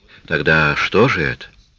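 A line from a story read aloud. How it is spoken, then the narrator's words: Timid question. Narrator (Russian): робко спросила Шейла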